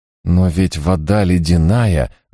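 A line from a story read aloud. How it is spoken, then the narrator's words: Timid protest. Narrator (Russian): робко попытался воспротивиться он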